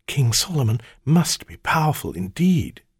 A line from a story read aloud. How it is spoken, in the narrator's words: she breathed